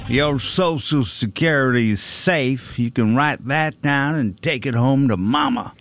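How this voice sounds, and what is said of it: Impression with a Southern drawl. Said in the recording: “doing an impression of, but it's somebody from the South ... He drawls. He has a draw. Drawl?”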